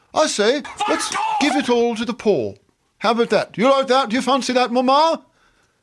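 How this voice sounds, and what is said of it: Convincing put-on British accent. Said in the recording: “That's a very good British accent.”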